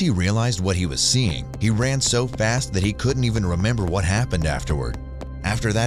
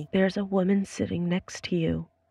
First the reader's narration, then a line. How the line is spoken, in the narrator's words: She went pale and quietly told me